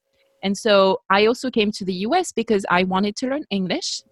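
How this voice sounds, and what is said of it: Non-native English accent. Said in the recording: “I'm still, you know, working on my accent, but it's been like 30 years ... Keep your accent”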